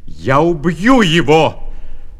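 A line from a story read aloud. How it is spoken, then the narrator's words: Shouting. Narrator (Russian): закричал Исав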